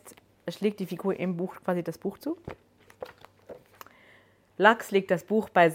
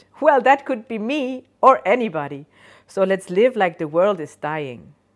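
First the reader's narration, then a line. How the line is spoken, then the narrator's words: Cheerful laughing voice. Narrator (German): Die Stimme lacht fröhlich und sagt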